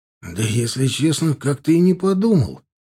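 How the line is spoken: Apologetic, flustered. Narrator (Russian): извиняющимся тоном растерянно произнес Милар

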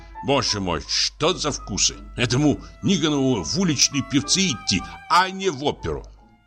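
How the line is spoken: Angry indignation. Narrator (Russian): Продолжая возмущаться, он сердито

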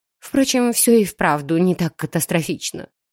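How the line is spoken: Thoughtful mutter. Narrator (Russian): пробормотала в задумчивости

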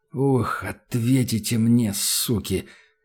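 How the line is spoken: Quiet rasp through clenched teeth. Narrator (Russian): Сжав до онемения челюсти, тихо прохрипел Данил

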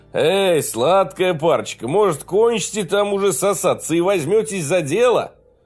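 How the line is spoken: Laughing. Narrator (Russian): рассмеялся

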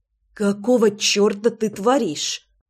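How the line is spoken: Hissing. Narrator (Russian): прошипела я

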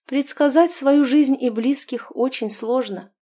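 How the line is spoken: Sighing mother. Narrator (Russian): вздохнула ее мать

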